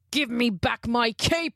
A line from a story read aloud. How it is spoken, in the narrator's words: roared